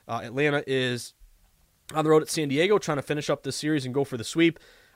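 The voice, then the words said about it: Congested, sniffly allergy voice. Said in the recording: “I sound terrible. My allergies are killing me ... sorry if I sound like a sniffly, like, fourth grader”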